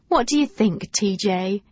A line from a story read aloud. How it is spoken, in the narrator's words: giggled Wendy